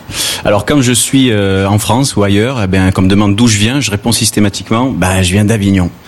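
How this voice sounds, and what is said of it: Southern French accent, from the Gard. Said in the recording (French): “vous l'entendez certainement, je suis d'ici ... pour toute la France, je suis du Sud, j'ai l'accent du Sud ... toi tu as l'accent du Gard”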